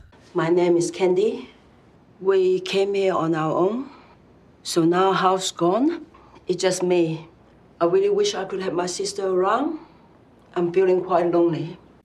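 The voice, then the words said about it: Speaks with a noticeable accent. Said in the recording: “she actually had an accent”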